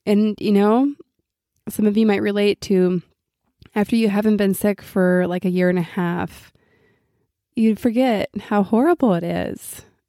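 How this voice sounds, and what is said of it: Sick, congested-sounding voice. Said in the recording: “Please excuse my voice. I got myself a little summer cold.”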